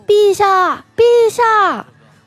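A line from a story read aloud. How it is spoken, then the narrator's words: Shouting from upstairs. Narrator (Chinese): 听见楼上有人喊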